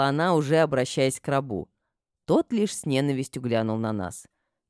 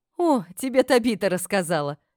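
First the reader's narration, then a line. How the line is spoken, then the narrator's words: Laughing reply. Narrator (Russian): ответила Сибилла, рассмеявшись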